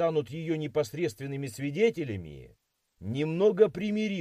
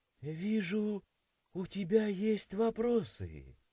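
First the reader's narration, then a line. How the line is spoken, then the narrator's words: Cheerless sigh. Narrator (Russian): Как-то невесело вздохнула она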